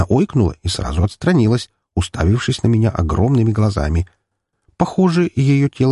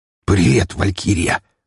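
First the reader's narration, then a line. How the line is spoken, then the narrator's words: Muffled hoarse wheeze. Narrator (Russian): прохрипел куда-то в грудь девушки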